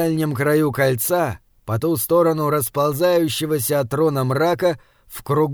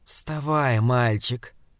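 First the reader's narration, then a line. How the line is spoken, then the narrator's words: Soft hoarse male voice. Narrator (Russian): мягкий и хриплый голос принадлежал мужчине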